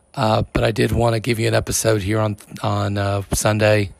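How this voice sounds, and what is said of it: Strained, unwell voice. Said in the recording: “As you can tell, my voice is not up to recording a full episode”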